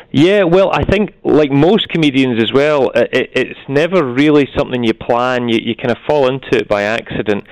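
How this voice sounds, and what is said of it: Scottish accent. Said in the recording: “you're from Scotland. We can tell that from your lovely accent there”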